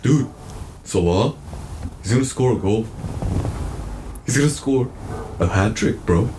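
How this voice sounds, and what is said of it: Imitates another person's voice. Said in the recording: “That was my best Ahmad impression. ... That's pretty good. I thought you were Ahmad for a second.”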